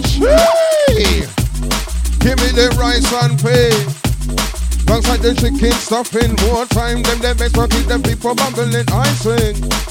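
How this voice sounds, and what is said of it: Put-on Indian accent. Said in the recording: “I can only do an Indian accent.”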